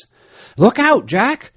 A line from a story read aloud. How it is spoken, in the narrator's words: cried in alarm